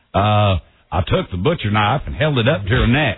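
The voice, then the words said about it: Put-on redneck dialect. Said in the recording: “Then let's hear your redneck dialect. ... Not bad.”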